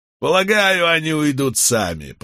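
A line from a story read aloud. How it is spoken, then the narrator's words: Through gritted teeth. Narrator (Russian): процедил Рейнольдс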